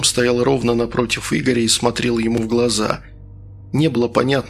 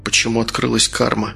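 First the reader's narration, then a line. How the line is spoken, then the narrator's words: Quiet question. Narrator (Russian): тихо спросил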